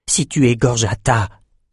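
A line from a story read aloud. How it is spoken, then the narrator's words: Breathed softly. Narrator (French): souffla Bannon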